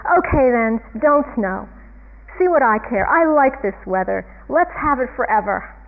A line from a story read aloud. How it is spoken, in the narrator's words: he yells up, he says